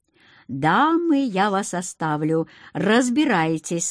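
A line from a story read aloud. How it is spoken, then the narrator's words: Plain. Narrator (Russian): сказал Акир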